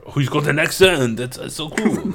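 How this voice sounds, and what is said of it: Put-on French accent. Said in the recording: “That was my French person.”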